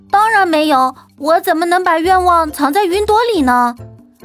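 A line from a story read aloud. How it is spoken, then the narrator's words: Calling out. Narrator (Chinese): 巴巴布喊着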